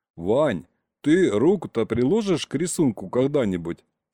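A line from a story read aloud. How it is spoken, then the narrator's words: Calm question. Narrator (Russian): спокойно спросил дядь Сережа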